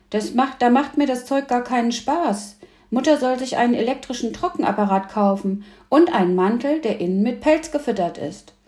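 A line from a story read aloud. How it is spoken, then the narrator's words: Shouting. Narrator (German): rief Emil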